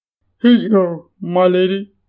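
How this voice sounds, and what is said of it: Deep male character voice. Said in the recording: “The deep voice belonged to one of the burly men”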